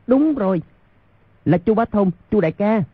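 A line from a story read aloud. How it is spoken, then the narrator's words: Excited cry. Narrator (Vietnamese): Quách Tĩnh nhảy bật dậy kêu lên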